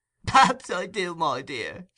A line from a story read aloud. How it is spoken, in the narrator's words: said the Jew with a shrill chuckle